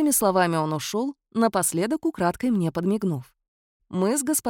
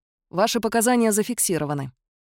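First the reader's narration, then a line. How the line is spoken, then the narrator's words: Dry flat statement. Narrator (Russian): сухо сообщил Киллиан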